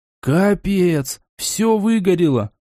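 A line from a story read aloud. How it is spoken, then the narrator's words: Dejected voice. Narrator (Russian): упавшим голосом произнес Даня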